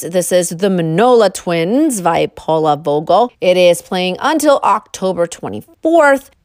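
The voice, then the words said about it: Speaker's own regional accent. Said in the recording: “my accent is getting the best of me.”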